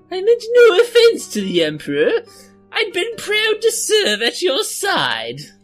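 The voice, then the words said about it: Put-on Coruscant accent, Imperial character voice. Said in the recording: “That is a Coruscant accent.”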